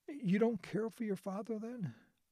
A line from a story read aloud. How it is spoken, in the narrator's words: Alice laughed uneasily